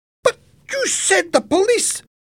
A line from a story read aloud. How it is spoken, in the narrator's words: Helen shouted angrily